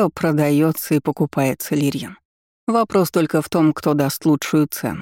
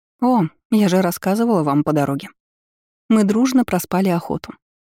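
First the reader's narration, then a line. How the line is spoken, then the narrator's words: Grim smiling tone. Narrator (Russian): мрачно улыбнулась ей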